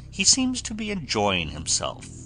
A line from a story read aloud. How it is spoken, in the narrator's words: said the Admiral